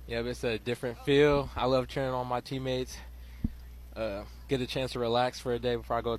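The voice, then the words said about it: Hoarse, worn-out voice. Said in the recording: “I just lost my voice cheering on my teammate ... I'm losing my voice right now.”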